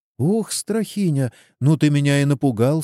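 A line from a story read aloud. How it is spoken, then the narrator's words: Frightened. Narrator (Russian): сказала Радойка и испуганно оглянулась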